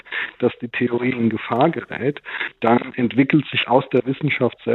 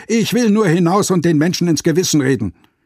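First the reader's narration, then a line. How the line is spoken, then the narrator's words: Calling. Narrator (German): rief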